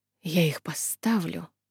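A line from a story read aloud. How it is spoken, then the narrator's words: Mutter. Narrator (Russian): пробормотала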